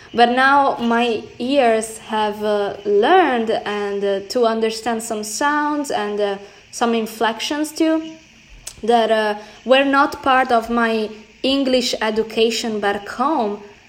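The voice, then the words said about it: Italian accent in English. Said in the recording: “my accent is still very Italian, I would say European”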